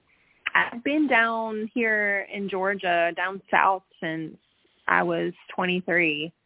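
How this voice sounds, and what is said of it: East Coast American accent. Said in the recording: “What part of the East Coast are you from? ... I could hear the accent”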